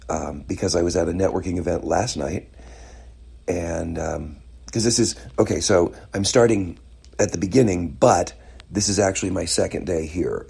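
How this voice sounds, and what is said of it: Slightly raspy voice. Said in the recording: “tell from my voice, it's a little raspy”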